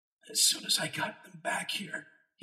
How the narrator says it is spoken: said, his voice a hoarse whisper

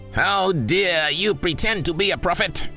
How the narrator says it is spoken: bellowed the imposing figure

